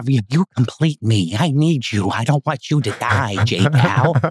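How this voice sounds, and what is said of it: Joker villain character voice. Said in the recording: “Batman Joker kind of relationship ... That's a very good impression.”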